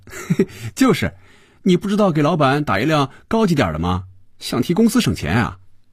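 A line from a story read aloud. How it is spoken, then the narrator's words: Laughing. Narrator (Chinese): 菲比笑着对肖斌说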